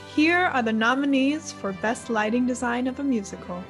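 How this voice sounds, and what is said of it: Announcer voice. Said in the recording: “do my announcer voice.”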